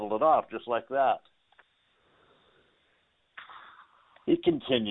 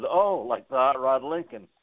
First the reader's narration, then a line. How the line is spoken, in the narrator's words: I chuckled and said